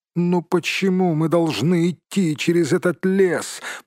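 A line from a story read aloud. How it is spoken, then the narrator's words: Hobbit's moaning complaint. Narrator (Russian): простонал хоббит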